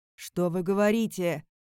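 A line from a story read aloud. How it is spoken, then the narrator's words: Barked. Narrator (Russian): рявкнул Викард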